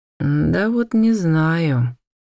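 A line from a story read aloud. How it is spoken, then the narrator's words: Gloomy reply. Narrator (Russian): мрачно отозвался он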